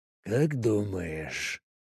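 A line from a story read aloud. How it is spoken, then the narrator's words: Near whisper. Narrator (Russian): Корсаков почти шептал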